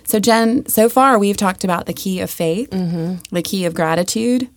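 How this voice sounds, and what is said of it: Voice not sounding normal. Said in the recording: “excuse the voice”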